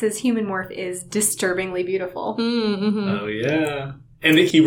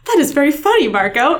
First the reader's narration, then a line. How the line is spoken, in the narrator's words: Axe said brightly